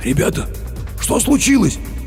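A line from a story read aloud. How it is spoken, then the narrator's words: Hoarse, agitated voice. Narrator (Russian): хриплым от волнения голосом поинтересовался охранник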